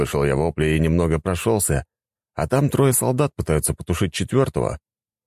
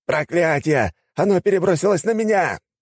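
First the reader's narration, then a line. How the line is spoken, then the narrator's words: Shouting. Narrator (Russian): Закричал один из тех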